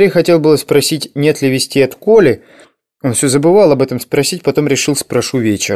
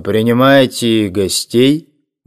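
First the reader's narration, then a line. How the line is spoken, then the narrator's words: Deep chesty question. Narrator (Russian): грудным голосом спросил Теодор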